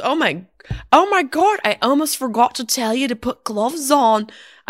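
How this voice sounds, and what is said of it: Poor imitated New Zealand accent, sounds Irish. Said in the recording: “I know that was more like a drunk marionette puppet from Ireland ... This is not New Zealand cultural appropriation. This is me genuinely trying to do the accent of one of my dear friends.”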